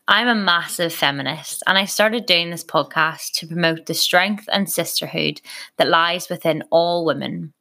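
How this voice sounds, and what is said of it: Northern Irish accent. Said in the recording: “as you can tell by my accent, I'm originally from Northern Ireland”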